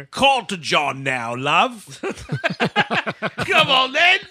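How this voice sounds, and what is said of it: Put-on British accent. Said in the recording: “British Terminator”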